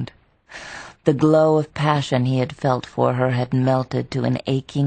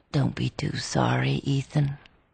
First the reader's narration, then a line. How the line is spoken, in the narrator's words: Maddie said in a low voice